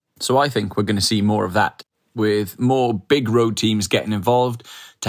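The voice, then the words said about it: Calm, soothing accented voice. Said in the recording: “calmly spoken ... he's such a calm character ... Love the accent. ... Very calming.”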